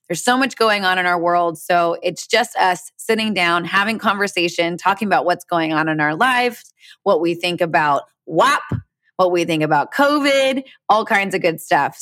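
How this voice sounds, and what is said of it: Congested, stuffy-nosed voice. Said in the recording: “my voice sounds a little iffy and I sound snotty ... my allergies”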